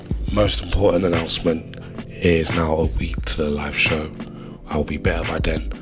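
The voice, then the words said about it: Rough, unwell-sounding voice. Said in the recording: “my voice is very messed up. I'm not feeling too great this week”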